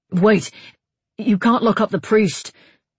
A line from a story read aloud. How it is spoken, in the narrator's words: Eivind blurted out, alarmed to see the way Thorvald hustled his captive out into the hallway